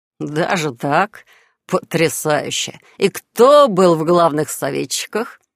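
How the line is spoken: Amused snort, not offended. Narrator (Russian): Фыркнув, впрочем, ничуть не обидевшись

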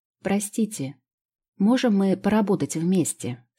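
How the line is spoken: Plain. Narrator (Russian): спросила я ее

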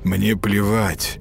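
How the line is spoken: Said through clenched teeth. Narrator (Russian): процедил Матиас

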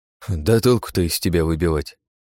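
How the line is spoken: Grim smirking tone. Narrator (Russian): мрачно усмехнулся Серега

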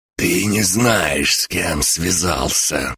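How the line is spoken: Hiss from injured man. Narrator (Russian): прошипел урод, которому я выбил плечо

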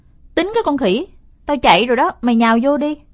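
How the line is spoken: Irritated snap. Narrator (Vietnamese): Tôi bực mình gắt

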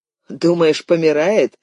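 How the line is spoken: Chuckling man. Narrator (Russian): хохотнул мужчина на переднем сиденье

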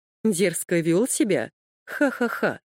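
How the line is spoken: Sarcastic laughter. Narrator (Russian): саркастически рассмеялся Эрнест

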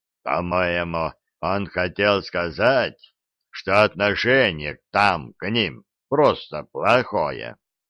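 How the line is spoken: Deep bass voice. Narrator (Russian): пробасил Диффенбахи

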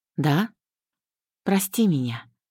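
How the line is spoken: Bitter whisper. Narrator (Russian): прошептала с горечью

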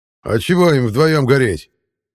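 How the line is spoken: Shout from behind a wall. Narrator (Russian): крикнул кто-то из-за стены

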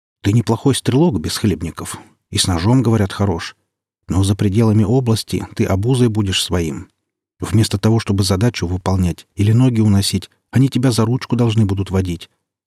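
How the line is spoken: Sighing. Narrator (Russian): вздохнул Зима, командир Норильска

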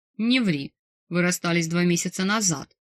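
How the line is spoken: Scornful snort. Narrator (Russian): фыркнул босс

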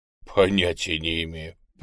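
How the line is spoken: Grumbling mutter. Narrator (Russian): пробурчал его приятель

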